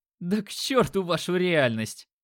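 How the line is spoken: Laughing. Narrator (Russian): хохотнул парень

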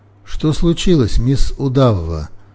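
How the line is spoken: Glum inquiry. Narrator (Russian): уныло осведомился я

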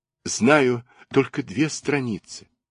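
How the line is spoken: Tearful answer. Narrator (Russian): бедный Алеша сквозь слезы отвечал

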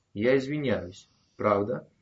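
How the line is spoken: Cold voice. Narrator (Russian): Голос звучал холодно

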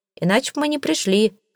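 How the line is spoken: Wry snort. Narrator (Russian): хмыкнул Джек

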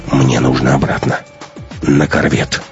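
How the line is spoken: Quiet. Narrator (Russian): тихо сказал Матвей

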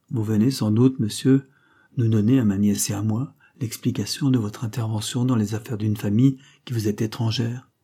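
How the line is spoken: Curt reply. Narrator (French): répondit le marquis de Kerdal d'un ton bref

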